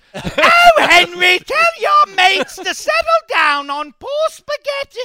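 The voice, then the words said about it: Put-on British accent, loud, rising pitch. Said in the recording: “Why does Hank's mom always yell? ... Every time you use your British accent, you go up.”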